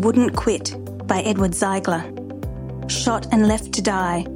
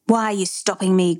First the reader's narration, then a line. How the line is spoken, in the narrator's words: growled the man behind the wheel